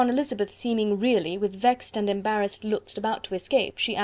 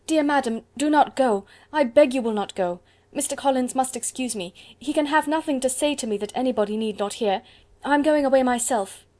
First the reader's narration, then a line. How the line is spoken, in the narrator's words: Elizabeth called out